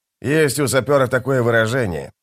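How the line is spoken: Muttered. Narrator (Russian): пробормотал скрипач

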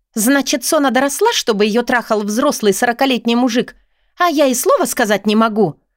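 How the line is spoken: Shrill squeal. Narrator (Russian): взвизгивает Лена

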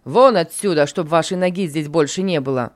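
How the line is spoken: Furious shouting boss. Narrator (Russian): неистово закричал начальник

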